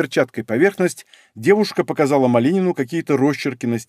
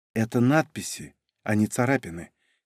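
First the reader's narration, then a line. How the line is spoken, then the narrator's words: Quiet young woman. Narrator (Russian): тихо сказала девушка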